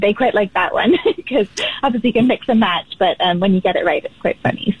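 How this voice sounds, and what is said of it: British accent, speaks quickly. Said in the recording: “you've picked up some of that British accent, and you speak rather quickly”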